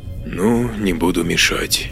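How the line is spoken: Quiet. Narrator (Russian): тихо сказал Маркус

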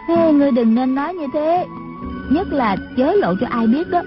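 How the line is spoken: Sighing. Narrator (Vietnamese): Trung Linh thở dài nói

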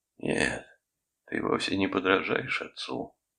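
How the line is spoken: Forced calm, confident. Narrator (Russian): продолжал я, стараясь, чтобы голос звучал уверенно и спокойно

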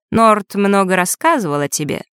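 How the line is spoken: Boy's mocking snort. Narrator (Russian): мальчик насмешливо хмыкнул

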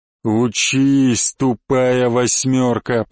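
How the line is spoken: Hissing. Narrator (Russian): прошипел Черный

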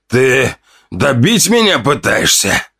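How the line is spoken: Pained hiss. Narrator (Russian): зашипел он после сдавленного вздоха боли

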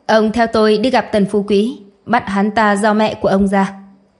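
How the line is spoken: Cold command. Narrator (Vietnamese): Lâm Ẩn lạnh lùng bảo

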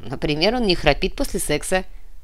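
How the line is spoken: Laughing. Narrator (Russian): засмеялся Нав

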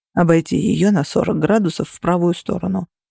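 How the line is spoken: Whisper. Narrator (Russian): прошептал Феникс

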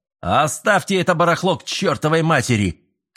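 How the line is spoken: Frenzied shouting. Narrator (Russian): кричал, словно взбесясь

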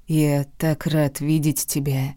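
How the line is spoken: Purring. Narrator (Russian): промурлыкал он

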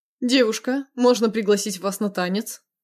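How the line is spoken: Playful chuckle. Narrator (Russian): задорно хмыкнул Витя

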